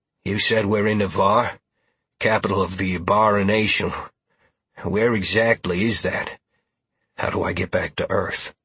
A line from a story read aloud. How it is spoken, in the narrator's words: Roland asked